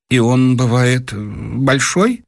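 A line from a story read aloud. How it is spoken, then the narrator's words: Choking, timid question. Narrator (Russian): Дровосекин как бы поперхнулся и робко спросил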